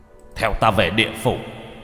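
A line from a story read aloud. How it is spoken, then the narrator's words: Commanding shout. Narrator (Vietnamese): Lục Sử quát lên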